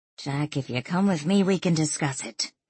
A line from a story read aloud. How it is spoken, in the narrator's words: Danielle said in a low voice